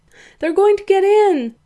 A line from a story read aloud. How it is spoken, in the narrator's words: Danny cried